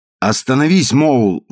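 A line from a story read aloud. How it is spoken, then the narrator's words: Exclaiming. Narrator (Russian): воскликнул мистер Пинчун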